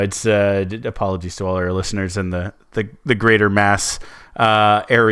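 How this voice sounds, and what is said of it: Usual voice. Nothing is said of it.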